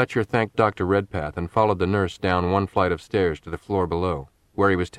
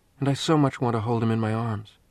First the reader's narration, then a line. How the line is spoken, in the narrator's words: said Annie quietly